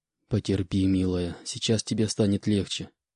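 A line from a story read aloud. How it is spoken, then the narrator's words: Gentle whisper. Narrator (Russian): прошептал Буран девушке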